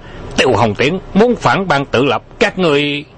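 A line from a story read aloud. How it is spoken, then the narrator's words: Terrified scream behind door. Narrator (Vietnamese): Tiếng hét kinh hãi của Đô Nhậm vang lên sau cửa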